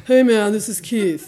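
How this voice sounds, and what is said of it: Bro-ish dude voice impression. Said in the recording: “my best imitation of Keith ... have Keith be kind of a bro”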